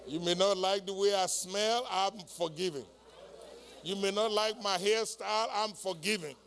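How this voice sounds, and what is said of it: Speaks with a noticeable accent. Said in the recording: “You may not like my accent.”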